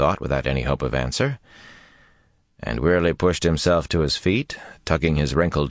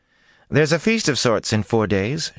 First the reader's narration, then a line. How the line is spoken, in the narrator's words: she said brightly